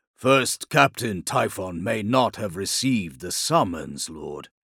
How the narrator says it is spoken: said, his voice a low growl

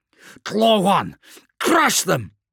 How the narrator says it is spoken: yelled Skryvok

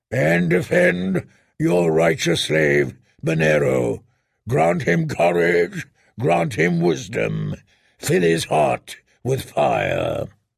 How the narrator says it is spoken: the Red Priest boomed

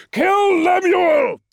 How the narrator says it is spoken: he roared

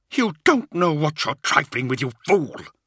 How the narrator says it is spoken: Cypher snarled

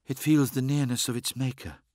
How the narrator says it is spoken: she whispered

